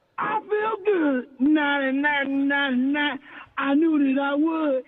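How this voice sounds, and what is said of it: Hoarse singing voice. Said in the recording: “I ain't got my singing voice today, Jack. I'm hoarse.”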